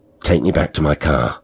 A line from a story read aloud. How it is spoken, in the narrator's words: I said firmly